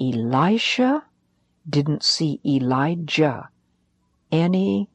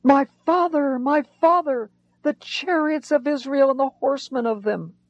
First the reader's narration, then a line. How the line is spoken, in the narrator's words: Elisha cried out